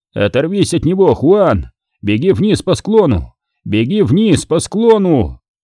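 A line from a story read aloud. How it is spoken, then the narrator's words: Yelled. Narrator (Russian): Люк заорал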